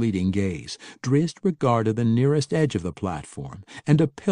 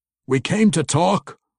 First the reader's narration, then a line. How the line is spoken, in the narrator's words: Brunner called out in the guttural goblin tongue